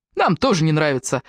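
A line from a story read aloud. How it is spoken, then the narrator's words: Cheerfully. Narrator (Russian): бодро проговорил Дэниел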